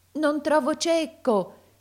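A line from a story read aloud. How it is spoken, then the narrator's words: Tearful, choked shout. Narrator (Italian): gridava talvolta col pianto alla gola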